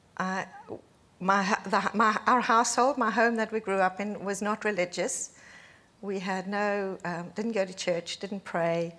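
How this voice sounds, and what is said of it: Foreign, non-native English accent. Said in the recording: “I guess my accent gives away the fact that I didn't grow up in this country.”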